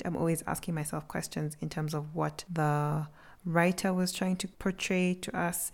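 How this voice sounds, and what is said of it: Slightly raspy, hoarse voice. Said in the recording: “I sometimes think my voice is a little bit raspy... I think my voice is a little bit hoarse”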